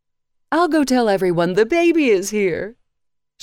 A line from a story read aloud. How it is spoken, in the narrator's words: she said excitedly